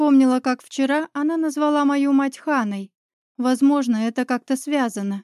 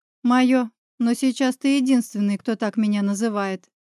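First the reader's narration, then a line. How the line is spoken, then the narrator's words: Slightly sad reply. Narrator (Russian): чуть печально ответила медуза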